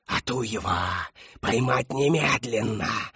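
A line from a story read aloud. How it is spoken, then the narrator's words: Straining scream. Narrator (Russian): надрывалась Шептунья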